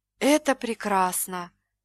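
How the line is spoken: Breathless exhale. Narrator (Russian): выдохнула Даяна

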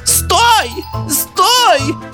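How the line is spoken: Shouted. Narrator (Russian): закричала Дарья Семеновна

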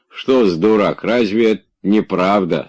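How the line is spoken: Plain. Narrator (Russian): сказал Захар

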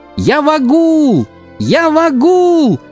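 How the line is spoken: Joyful shout. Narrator (Russian): кричал я, подпрыгивая от радости

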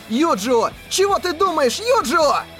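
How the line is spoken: Nearly yelling. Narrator (Russian): Кирита уже почти вопил

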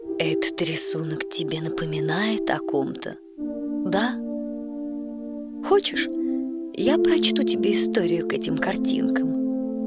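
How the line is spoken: Grandmother, quiet question. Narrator (Russian): Бабушка тихо спросила

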